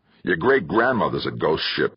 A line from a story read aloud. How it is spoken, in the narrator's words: Kirk growled